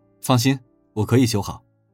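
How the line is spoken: Calm, understated. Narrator (Chinese): 高凤林淡淡的回应

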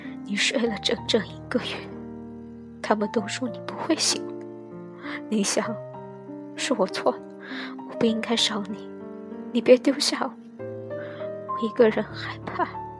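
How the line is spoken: Choked, tearful voice. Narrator (Chinese): 声音哽咽，语带哭腔

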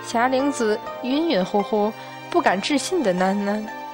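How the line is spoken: With a smile. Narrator (Chinese): 孙悟空带笑道

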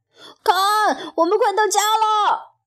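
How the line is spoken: Shout. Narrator (Chinese): 弗洛格发出了一声叫喊

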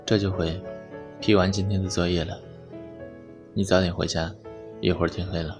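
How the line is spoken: Flat, indifferent. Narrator (Chinese): 陈生……淡淡的说道

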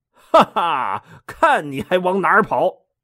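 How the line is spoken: Laughing. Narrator (Chinese): 托塔天王哈哈一笑说

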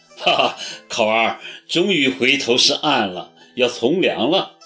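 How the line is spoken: Chuckling. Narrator (Chinese): 齐树礼 呵呵笑道

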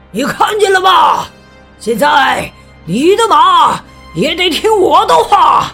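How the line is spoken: Shouted. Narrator (Chinese): 他大叫

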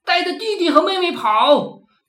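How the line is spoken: Desperate shout of dying mother. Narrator (Chinese): 母亲的肚子被捅了几刀，肠子都流出来了，对祖爷大喊

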